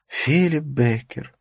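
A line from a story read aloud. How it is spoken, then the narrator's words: Sighing. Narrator (Russian): вздохнула Катрина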